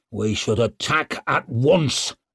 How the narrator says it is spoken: growled Barazin

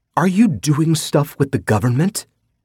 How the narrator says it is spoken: She gasped

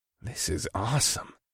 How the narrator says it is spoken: I breathed, as all my 12-year-old self's fantasies came true

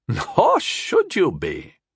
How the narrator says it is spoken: Alwyn chuckled

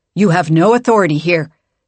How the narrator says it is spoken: Nieta snapped

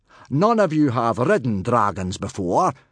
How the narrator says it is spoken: Gobber boomed

